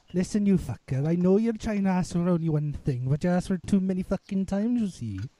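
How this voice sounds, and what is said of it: Put-on Welsh accent. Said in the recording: “Bust out the Welsh accent ... tell me that's not a wonderful sounding accent.”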